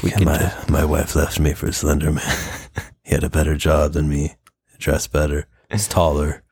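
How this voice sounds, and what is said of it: Usual voice. Nothing is said of it.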